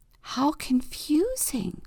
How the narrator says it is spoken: whispers Octopus

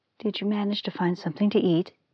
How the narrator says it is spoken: asked anxiously

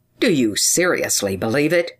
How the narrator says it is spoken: replied Care, in a severe tone of reproach

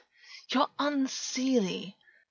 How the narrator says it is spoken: Augus said, amused, even though his voice was strained

